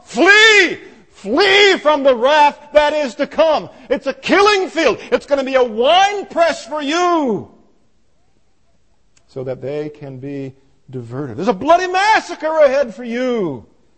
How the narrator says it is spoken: he shouts at the top of his lungs

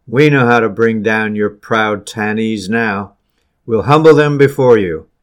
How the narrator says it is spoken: with manifest delight, exclaimed

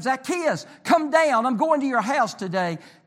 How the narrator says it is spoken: He cried out to him

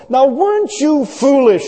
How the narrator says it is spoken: exclaimed

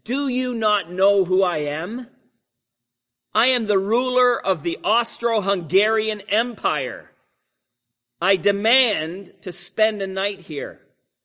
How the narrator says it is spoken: He called out the monk and said

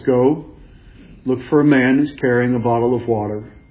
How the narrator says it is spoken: This is Jesus who says calmly

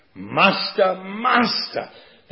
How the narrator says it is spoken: they shouted without tenderness

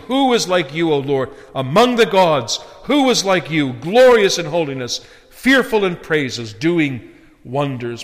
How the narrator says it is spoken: the children of Israel, after witnessing God's almighty power in destroying the Egyptians in the Red Sea, exclaim

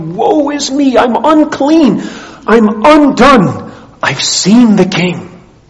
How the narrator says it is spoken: Isaiah in Isaiah 6 who cried

